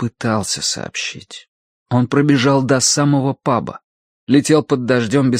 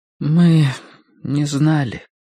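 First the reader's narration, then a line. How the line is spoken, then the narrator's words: Low muffled voice. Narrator (Russian): глухо проговорила Мэри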